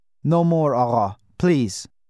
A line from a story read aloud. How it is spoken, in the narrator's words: he said, his voice husky and trembling